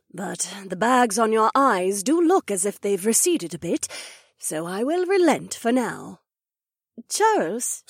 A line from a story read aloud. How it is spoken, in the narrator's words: Cecilia breathed